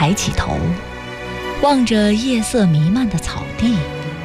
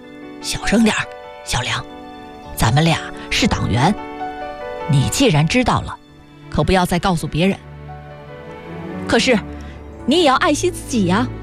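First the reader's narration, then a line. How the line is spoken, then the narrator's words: Soft, quiet. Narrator (Chinese): 老班长轻声说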